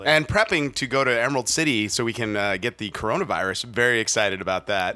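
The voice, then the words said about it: Hoarse, vocally worn-out voice. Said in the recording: “a little hoarse today... vocally worn out”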